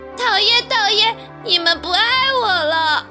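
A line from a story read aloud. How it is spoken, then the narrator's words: Loud aggrieved crying. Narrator (Chinese): 叫叫觉得好委屈，大声的哭着说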